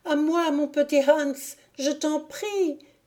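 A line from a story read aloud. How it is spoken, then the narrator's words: Wailing, pitiful cry. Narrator (French): cria d'une voix lamentable la victime de Jupiter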